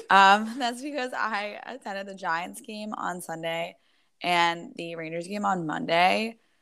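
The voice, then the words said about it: Hoarse, strained voice. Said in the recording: “another week where my voice is shot ... I talk too much, so my voice does not improve ... Yeah, it's not great.”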